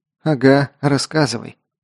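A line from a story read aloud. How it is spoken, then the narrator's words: Grumbling mutter. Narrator (Russian): буркнула Элли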